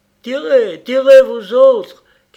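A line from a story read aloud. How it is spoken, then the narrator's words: Shouted. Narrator (French): criait le créole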